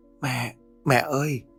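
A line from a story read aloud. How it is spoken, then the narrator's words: Soft call. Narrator (Vietnamese): cô khẽ cất tiếng gọi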